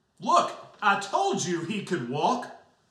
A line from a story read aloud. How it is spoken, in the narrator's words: exclaims, his distinct voice sharp and loud